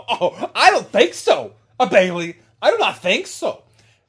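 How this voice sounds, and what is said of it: Booker T impression. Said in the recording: “That was very good impersonation. ... The Booker T, though. That's pretty good.”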